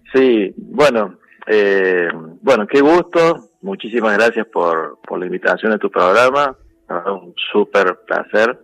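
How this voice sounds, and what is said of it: Córdoba Argentine Spanish accent. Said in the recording (Spanish): “cordobés el tipo, bueno, escapa la tonada cuando saluda ... con esta tonadita”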